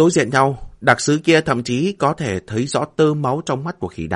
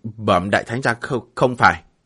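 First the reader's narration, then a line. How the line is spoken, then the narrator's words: Quiet voice. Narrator (Vietnamese): Đặc sứ nhỏ giọng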